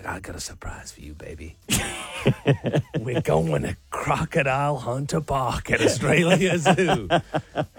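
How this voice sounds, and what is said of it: Hybrid American-Australian accent. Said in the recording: “are you doing American or like a real Aussie accent? ... a hybrid.”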